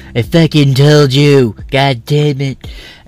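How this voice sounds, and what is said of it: Imitates another person's voice. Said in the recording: “My Trump impersonation is like a special needs Trump. ... Maybe it's actually kind of accurate”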